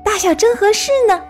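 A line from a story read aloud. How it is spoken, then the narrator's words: Excited shout. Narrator (Chinese): 他兴奋地喊着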